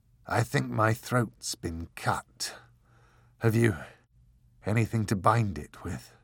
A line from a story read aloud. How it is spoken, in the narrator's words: he said, in a hoarse voice that was little more than a grinding whisper